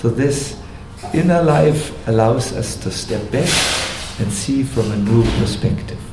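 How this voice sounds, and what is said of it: Non-native accent in English. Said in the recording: “Can you understand my English, or is it too much accent?”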